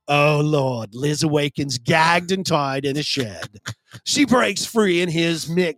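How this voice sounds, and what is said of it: Put-on accent while reading. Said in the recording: “Everybody's loving your accent. Keep going.”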